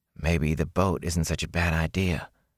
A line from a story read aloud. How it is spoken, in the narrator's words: Matt muttered